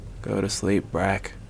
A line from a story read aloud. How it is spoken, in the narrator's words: he grumbled